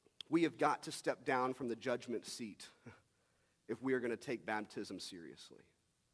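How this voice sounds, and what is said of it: Usual voice. Nothing is said of it.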